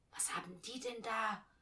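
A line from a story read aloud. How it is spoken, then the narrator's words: Whisper. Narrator (German): flüsterte Alice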